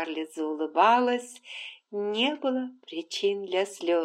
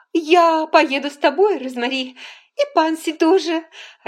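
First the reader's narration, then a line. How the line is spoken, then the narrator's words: Joyful. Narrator (Russian): радостно сказала Скарлетт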